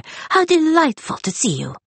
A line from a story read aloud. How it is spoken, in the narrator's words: cried the little man